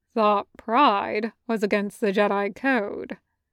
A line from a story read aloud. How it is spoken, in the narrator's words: Cody said dryly